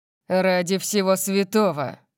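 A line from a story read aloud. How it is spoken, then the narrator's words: Growl. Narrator (Russian): прорычал он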